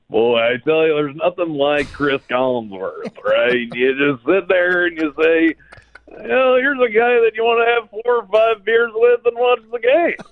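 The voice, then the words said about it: Chris Collinsworth impression. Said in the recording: “your Chris Collinsworth impression ... he's not a guy that's easy to imitate”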